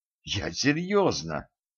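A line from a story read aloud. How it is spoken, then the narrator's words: Through gritted teeth. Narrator (Russian): процедила Женька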